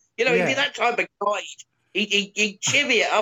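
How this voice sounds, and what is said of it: Usual voice. Nothing is said of it.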